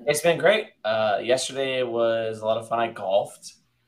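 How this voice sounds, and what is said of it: Hoarse, nearly lost voice. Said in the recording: “I've lost my voice at the moment... my voice was completely gone... I sound absolutely just horrendous right now”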